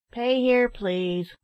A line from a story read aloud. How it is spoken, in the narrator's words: cried the money-taker in an extremely nasal tone